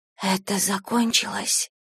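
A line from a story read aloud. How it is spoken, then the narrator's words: Whisper after silence. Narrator (Russian): прошептала я спустя несколько секунд тишины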